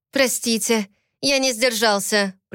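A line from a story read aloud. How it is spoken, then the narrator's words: Timid babble. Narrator (Russian): пролепетал держащий девушку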